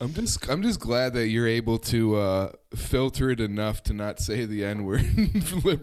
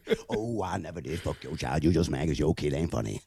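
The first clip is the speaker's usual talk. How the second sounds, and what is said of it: Imitates another person's voice. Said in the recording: “This is just the Godfrey impersonation”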